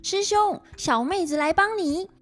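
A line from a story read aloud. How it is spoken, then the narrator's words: Group shouting. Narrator (Chinese): 他们七个 大叫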